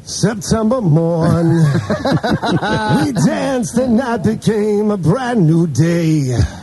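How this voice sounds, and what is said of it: Sung imitation of another person's voice. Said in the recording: “Do you do Neil Diamond? Do you do impersonation? ... I do Neil Diamond. ... That's not bad.”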